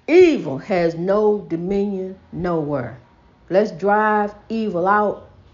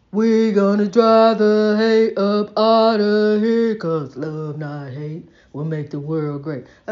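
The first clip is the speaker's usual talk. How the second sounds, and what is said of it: Sings in a deep bass voice. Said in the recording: “let me try my bass voice.”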